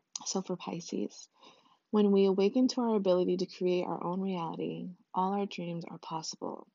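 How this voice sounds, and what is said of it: Usual voice. Nothing is said of it.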